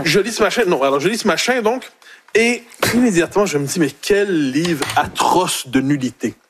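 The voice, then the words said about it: Québécois French accent. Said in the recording (French): “Il a même retrouvé son accent québécois”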